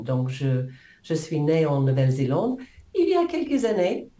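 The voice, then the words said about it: New Zealand accent in French. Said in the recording (French): “je ne peux pas cacher le fait que j'ai un accent, ça c'est sûr. ... n'est pas américain, ni britannique, ni l'Afrique du Sud, ni australien. ... la Nouvelle-Zélande ... je ne cache pas mon accent”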